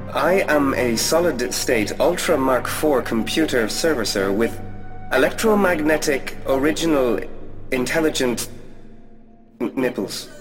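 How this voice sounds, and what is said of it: Computer voice with a cute accent. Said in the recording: “your cute accent”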